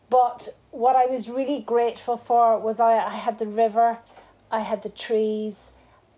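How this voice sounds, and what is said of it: Non-Cork accent. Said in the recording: “you will hear from my accent I'm not from Cork”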